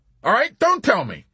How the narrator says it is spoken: Corporal Whitcomb snapped

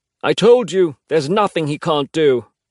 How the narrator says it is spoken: he shouts over the noise

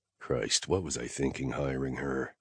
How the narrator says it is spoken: I muttered

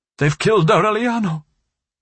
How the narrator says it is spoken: she exclaimed

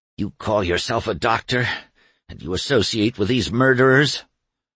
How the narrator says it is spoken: Doremus raised his head from the table to gasp

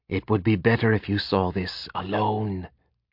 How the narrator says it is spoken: he whispered

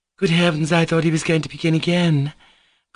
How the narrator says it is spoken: Grushenka exclaimed nervously

